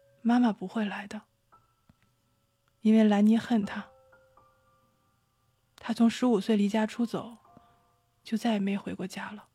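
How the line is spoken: Gentle, helpless. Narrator (Chinese): 姐姐很温柔，却也很无奈的说

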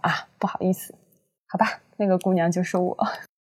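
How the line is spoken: Cheerful girl. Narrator (Chinese): 女生……笑嘻嘻的……说

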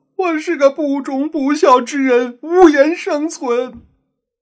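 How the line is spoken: Wailing self-reproach. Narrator (Chinese): 洋人放声大哭，口口声声自责

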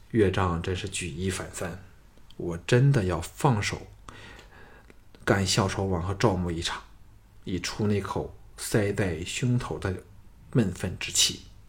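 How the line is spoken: Admiring. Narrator (Chinese): 项少龙对吴应元的文弦歌之雅意赞叹说

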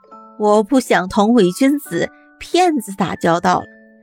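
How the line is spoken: Laughing. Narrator (Chinese): 年轻人笑着说

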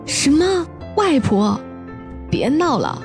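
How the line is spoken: Shriek. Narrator (Chinese): 我尖叫了起来

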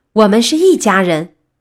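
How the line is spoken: Shouting. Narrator (Chinese): 他大喊

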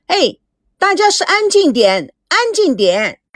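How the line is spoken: Annoyed shout. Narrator (Chinese): 美娇不满意众人的吵闹，喊着说

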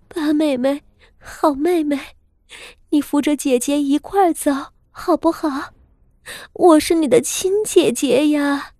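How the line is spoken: Crying. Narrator (Chinese): 哭道

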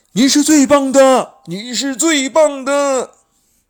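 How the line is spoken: Excited crowd shouting. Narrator (Chinese): 台下的众人兴奋地大声叫着

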